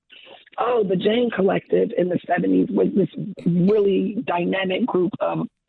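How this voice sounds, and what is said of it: Scratchy, hoarse voice. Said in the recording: “sorry about the voice. It's a little scratchy.”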